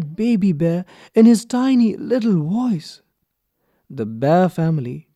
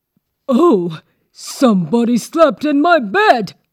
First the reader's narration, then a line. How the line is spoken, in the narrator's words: shouted Papa Bear in his big, gruff voice